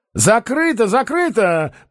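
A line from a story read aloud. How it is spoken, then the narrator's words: Hasty shout. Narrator (Russian): поспешно крикнул Остап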